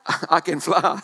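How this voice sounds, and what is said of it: New Zealand accent. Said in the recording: “didn't say it with my accent, he said it with a Kiwi accent.”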